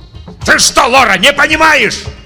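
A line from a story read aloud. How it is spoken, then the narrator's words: Yelling. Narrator (Russian): орал Татлин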